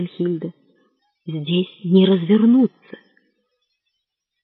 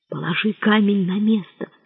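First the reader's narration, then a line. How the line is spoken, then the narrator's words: Low voice. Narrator (Russian): вполголоса сказала Свенхильда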